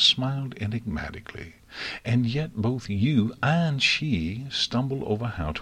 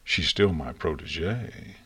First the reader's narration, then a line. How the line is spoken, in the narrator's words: Celestia replied coolly